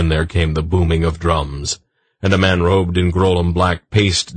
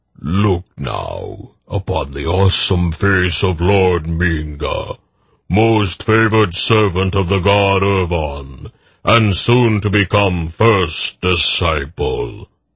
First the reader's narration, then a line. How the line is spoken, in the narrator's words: the hollow voice boomed